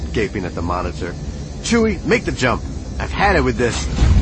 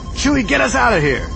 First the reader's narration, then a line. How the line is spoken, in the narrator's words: Chewie roared